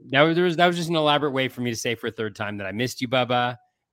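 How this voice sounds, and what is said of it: Slightly nasal voice. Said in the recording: “you can tell I'm a little bit nasally”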